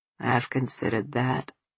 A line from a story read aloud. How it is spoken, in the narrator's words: Papa said quietly